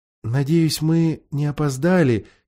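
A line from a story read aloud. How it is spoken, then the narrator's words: Quiet addition. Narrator (Russian): тихо прибавила Уинни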